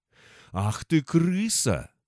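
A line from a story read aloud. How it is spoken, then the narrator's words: Hoarse moan, old man. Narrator (Russian): хрипло простонал старикан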